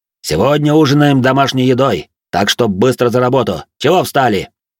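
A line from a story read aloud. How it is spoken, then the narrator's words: Sharp shout. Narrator (Russian): прикрикнул он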